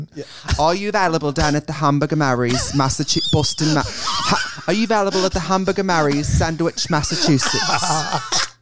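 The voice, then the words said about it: Put-on British accent. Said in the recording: “you have to do the British accent.”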